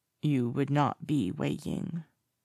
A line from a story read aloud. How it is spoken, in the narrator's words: points out, his voice rasping in his throat